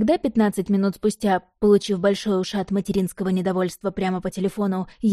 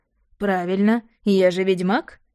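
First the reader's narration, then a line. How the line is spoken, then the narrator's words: Chuckling. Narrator (Russian): хохотнул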